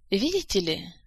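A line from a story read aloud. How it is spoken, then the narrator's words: Sighing, turning serious. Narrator (Russian): Жак вздохнул и как-то посерьезнел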